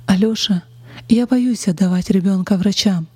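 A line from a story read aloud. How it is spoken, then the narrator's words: Timid reply. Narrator (Russian): робко ответила Ольга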